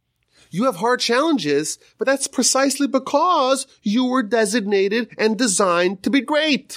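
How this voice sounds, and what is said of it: Usual voice. Nothing is said of it.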